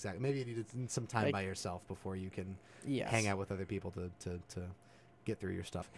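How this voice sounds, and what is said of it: Usual voice. Nothing is said of it.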